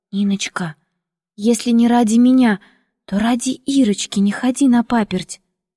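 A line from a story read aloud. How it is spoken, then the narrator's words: Timid quiet whisper. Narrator (Russian): Люда робко тихо прошептала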